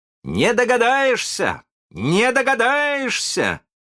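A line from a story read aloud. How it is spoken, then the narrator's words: Proud shouting. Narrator (Russian): кричал с гордостью Питер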